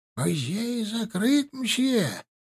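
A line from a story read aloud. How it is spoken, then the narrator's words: Mumbling old man. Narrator (Russian): прошамкал старик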